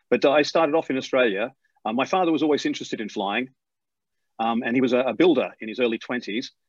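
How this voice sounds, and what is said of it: British accent with slight Australian twang. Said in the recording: “you've obviously picked up the accent already. Although, even though I left Australia about 30 years ago, I've still got that little twang there ... people assume I'm British because I've got this British accent”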